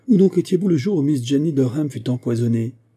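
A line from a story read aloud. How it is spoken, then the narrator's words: Booming voice. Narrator (French): dit-il d'une voix éclatante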